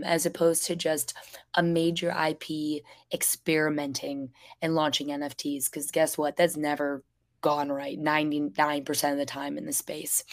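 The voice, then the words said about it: Hoarse, nearly lost voice. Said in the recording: “I've lost my voice entirely. This is why I sound so ridiculous right now.”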